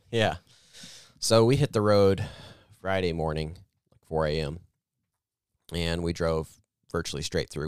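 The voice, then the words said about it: Fading, tired voice. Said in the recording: “I can already tell my voice is starting to fade”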